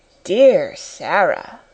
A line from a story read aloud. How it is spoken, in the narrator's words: murmured Lavinia